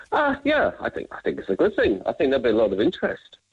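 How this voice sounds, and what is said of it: English London accent. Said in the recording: “now you can tell by my accent, I'm not from Cork ... You're the English? ... Yeah, well, I am from London ... He's a Londoner then”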